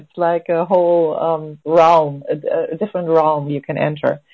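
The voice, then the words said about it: Excited, enthusiastic voice. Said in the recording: “this is so much fun, as you can tell by my voice. It's really, really super exciting.”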